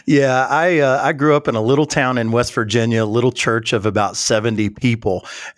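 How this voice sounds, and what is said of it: Southern American accent. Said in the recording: “your Southern accent's going to give you away a little bit”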